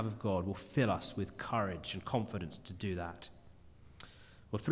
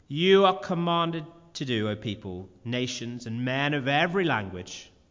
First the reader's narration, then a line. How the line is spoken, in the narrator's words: the herald who proclaims loudly